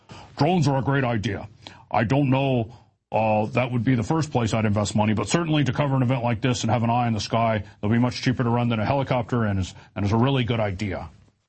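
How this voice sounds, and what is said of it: Imitates another person's voice, badly. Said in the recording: “my horrible Ed Davis impersonation.”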